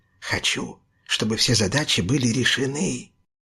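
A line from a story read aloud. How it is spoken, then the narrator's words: Whisper. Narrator (Russian): прошептал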